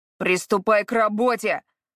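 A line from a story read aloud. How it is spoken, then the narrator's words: Man shouting after her. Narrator (Russian): крикнул мужчина ей в спину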